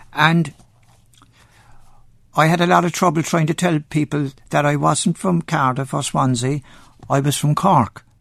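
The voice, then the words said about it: Irish Cork accent, sing-song intonation. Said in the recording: “the Cork accent ... the Cork accent is very, very similar to the Welsh accent, because it goes up and down and up and down”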